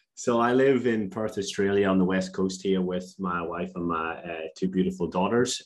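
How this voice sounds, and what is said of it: Non-Australian accent. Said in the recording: “that accent isn't Australian”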